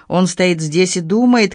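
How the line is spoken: Shouting. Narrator (Russian): крикнула

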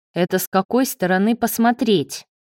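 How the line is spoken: Snapping retort. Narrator (Russian): огрызнулся Лео

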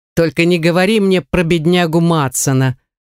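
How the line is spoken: Muffled chuckle. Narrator (Russian): хохотнул глухо

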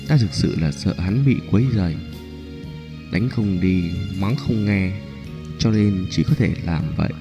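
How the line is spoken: Soft, embarrassed. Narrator (Vietnamese): khuôn mặt Nhã Phi ửng đỏ, nói khẽ

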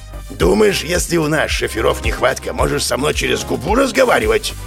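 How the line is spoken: Growled angrily. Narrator (Russian): прорычал дядька

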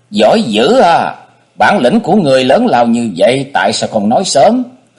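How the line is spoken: Ecstatic shrieking. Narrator (Vietnamese): Cô quá vui mừng, gần như phát điên lên vậy, miệng hét toáng lên

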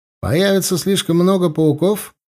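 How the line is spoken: Cheerful question. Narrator (Russian): бодро спросил Корнел

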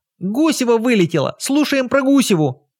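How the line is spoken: Joyful squealing crowd. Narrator (Russian): Радостно верещали более проворные

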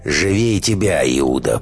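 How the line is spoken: Hoarse rasp. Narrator (Russian): прохрипел Матвей

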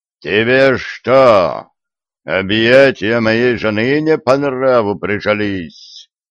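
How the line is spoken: Menacing question. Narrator (Russian): грозно спросил Шива

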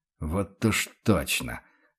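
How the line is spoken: Grumbled. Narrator (Russian): буркнул фон Рейдер

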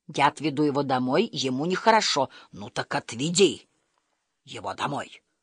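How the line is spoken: Growled. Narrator (Russian): прорычал

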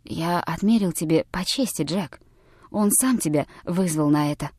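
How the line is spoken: Whispered. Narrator (Russian): он прошептал

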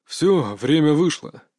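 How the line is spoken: Sighing. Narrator (Russian): вздохнул Чехов

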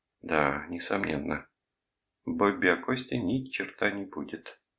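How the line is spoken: Quiet. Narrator (Russian): тихо закончила она

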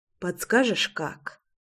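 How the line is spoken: Soft request. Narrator (Russian): тихонько попросила я

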